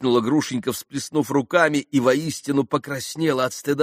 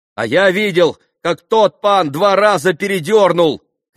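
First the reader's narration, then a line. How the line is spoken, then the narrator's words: Shouting. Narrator (Russian): крикнул Колганов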